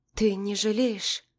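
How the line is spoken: Quiet, hiding anxiety. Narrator (Russian): спрашиваю тихо, пытаясь скрыть тревогу в голосе

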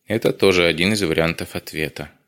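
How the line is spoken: Sigh. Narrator (Russian): вздохнул Дронго

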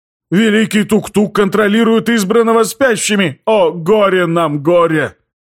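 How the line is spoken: Wailing shaman. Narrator (Russian): завопил шатанак, шаман Трогов

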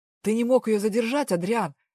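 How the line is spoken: Barked shout. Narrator (Russian): рявкнул Дэв

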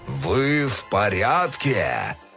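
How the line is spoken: Dinosaur growl. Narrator (Russian): Рыкнул динозавр

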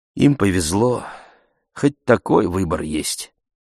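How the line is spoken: Sighing. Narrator (Russian): отец вздохнул и сказал

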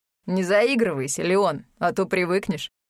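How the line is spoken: Laughing. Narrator (Russian): засмеялся Реми

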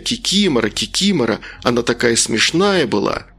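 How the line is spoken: Children's joyful exclaiming. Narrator (Russian): Дети радостно восклицали

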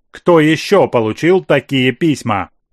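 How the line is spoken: Stern question. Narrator (Russian): строго спросила вдовствующая императрица

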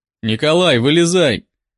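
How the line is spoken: Loud command. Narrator (Russian): Громко скомандовал я

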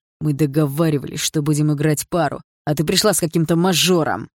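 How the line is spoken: Hissed. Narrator (Russian): прошипел Барс

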